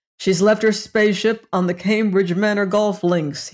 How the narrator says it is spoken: he said

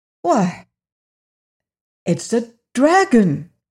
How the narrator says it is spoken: he exclaimed

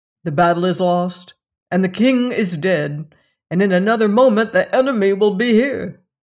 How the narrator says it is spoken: cried the queen

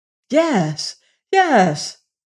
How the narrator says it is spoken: cried he

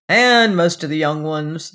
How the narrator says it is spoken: he added mournfully

